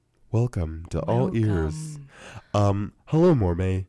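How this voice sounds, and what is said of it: Put-on radio announcer voice. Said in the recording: “weird voice put on... I sound different... the real ... radio voice”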